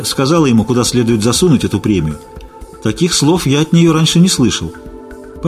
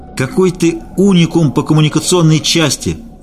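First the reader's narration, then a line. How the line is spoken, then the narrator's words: Straining shout in face. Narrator (Russian): дергаясь в путах, крикнул я Наде в лицо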